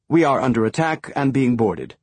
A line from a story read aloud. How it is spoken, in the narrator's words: the captain said, her voice remarkably calm